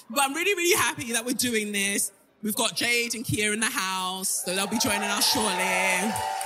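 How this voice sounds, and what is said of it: British accent. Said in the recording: “There is a British accent here that is really Britishing. ... It is me.”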